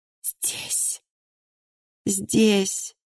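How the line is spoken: Barely audible. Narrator (Russian): едва слышно произнесла она

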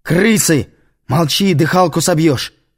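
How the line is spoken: Yelling. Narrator (Russian): заорал он

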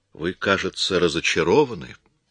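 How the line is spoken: Calm. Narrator (Russian): спокойно сказал Коридон

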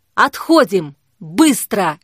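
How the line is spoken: Shouted. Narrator (Russian): крикнул Никита

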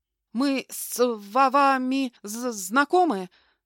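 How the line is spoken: Stammering question. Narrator (Russian): Заикаясь, спросил он

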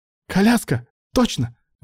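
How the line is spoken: Exclaiming. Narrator (Russian): воскликнул Алан

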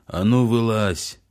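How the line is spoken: Sergeant major yelling. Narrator (Russian): заорал старшина

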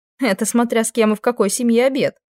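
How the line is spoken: Laughing. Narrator (Russian): рассмеялась я

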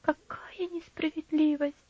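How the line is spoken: Quiet. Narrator (Russian): тихо проговорила Лора

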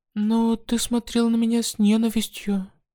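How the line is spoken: Very sad. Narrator (Russian): очень печально сказала она

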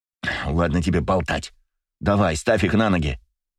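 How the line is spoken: Snapping retort. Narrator (Russian): огрызнулся Леня

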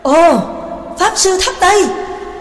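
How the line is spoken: Surprised group exclamation. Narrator (Vietnamese): cả bọn đều cùng kinh ngạc thốt lên

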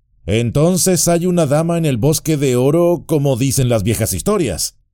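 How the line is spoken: Exclaiming. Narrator (Spanish): exclamó

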